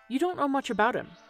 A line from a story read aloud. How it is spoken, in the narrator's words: said the other sharply